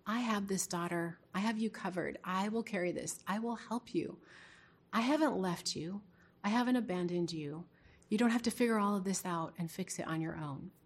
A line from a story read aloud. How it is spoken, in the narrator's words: the Holy Spirit whisper